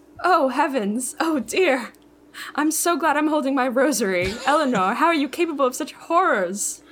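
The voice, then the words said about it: Prim teacherly British accent. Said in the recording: “Your accent's really good. ... It's very teacherly, very Mary Poppins.”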